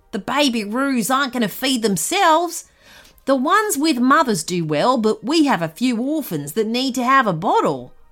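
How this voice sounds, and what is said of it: Put-on Australian accent. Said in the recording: “said the man, who spoke with an Australian accent.”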